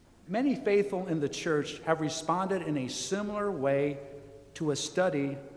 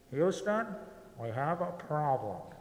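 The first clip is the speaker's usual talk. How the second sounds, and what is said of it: Imitates another person's voice. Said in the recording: “I'll do my best Tom Hanks imitation”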